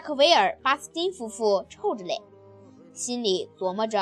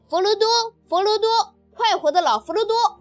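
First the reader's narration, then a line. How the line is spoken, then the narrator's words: Loud rowdy young voices. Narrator (Chinese): 一些年轻人则大声鼓噪着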